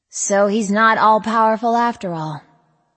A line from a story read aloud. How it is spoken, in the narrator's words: I sighed